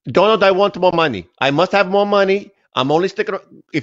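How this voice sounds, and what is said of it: Bad Slovenian accent, Melania impression. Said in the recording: “My Slovenian accent is horrible. Sounds like Colonel Klink, actually.”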